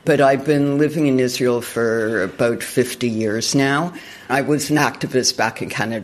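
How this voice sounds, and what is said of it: Canadian English accent. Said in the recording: “As you can tell from the accent, I'm originally Canadian.”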